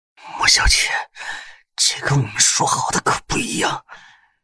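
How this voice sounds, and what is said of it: Barely audible whisper. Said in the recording (Chinese): “用几乎微不可闻的声音说”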